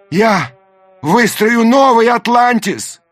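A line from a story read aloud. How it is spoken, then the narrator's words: Shouted after them. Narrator (Russian): крикнул им вслед Даймё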